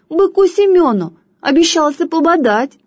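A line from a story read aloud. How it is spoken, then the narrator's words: Squeaked. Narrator (Russian): пискнула другая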